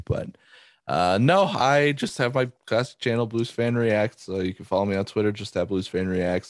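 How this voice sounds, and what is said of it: Nasal voice from a cold. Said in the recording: “a little bit of a cold ... under the weather ... my voice is so nasally”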